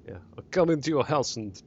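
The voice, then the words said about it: Poor attempt at Russian accent. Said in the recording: “Only with a Russian accent ... No, that was rubbish.”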